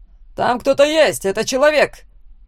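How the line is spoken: Shout. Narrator (Russian): крикнул один из стражников

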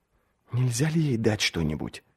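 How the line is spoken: Quiet question. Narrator (Russian): тихонько спросил

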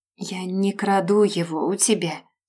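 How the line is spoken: Quiet. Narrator (Russian): говорит она негромко

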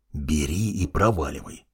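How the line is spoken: Hissing. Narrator (Russian): прошипел я

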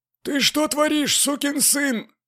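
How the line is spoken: Strained hoarse wheeze. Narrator (Russian): просипел кое-как

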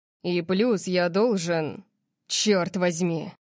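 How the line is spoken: Frustrated growl. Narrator (Russian): Он зарычал, как будто пытался остановить себя от продолжения

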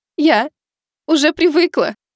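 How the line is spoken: Sobbing. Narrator (Russian): продолжала рыдать Миваки

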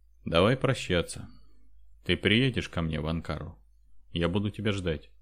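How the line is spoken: Sad. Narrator (Russian): Андрей грустно сказал

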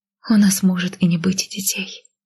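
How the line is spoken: Whispering. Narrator (Russian): прошептала я

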